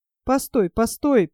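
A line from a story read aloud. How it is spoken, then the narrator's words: Officer muttering. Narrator (Russian): пробормотал ротмистр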